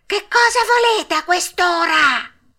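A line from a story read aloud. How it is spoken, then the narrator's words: Irritated old man shouting. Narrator (Italian): un vecchino, il quale gridò, tutto stizzito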